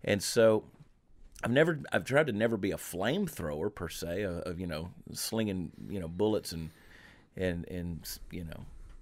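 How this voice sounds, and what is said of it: Southern US accent. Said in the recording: “I want to be known as that white guy with a Southern accent”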